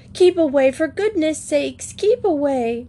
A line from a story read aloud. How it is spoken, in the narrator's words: the others screamed out